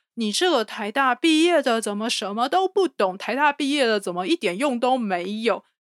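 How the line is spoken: Shrill very loud shout. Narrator (Chinese): 用高亢尖锐的声音，然后用一百三十分贝以上的音量喊出来

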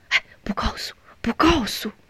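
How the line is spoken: Murmured reply. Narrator (Chinese): 邵元喃喃的应着

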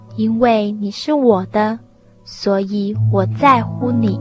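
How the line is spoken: Slow speech. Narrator (Chinese): 伊莱缓缓地说

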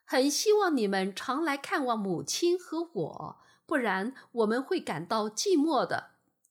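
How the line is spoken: Kind, smiling. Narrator (Chinese): 露出善良的微笑，又说

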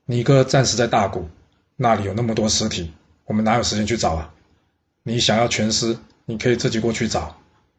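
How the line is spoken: Cold reply. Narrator (Chinese): 先且居冷冷的回答白吞说

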